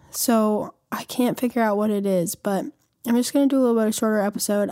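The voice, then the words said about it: Voice sounds a little weird. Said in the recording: “my voice sounds a little weird today”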